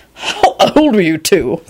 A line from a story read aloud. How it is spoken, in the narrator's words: Quentin said in a startled voice